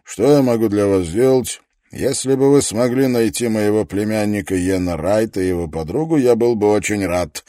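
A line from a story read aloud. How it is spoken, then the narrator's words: Sharp tone. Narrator (Russian): произнес резким тоном профессор Давенпорт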